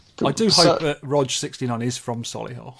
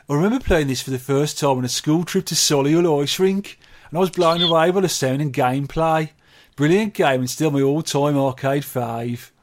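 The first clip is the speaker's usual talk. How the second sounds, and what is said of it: Put-on local regional accent. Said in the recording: “Let me do this in the proper accent.”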